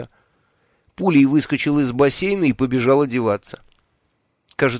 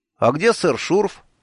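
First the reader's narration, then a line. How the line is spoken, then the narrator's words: Cheerful question. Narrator (Russian): весело спросил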